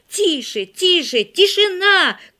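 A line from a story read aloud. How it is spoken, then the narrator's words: Shout at the window. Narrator (Russian): крикнул Игорь у окна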